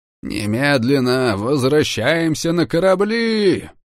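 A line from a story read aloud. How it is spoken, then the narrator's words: Roar. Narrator (Russian): взревел адмирал Лерой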